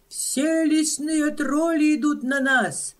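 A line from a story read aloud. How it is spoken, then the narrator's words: Screaming. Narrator (Russian): вопит он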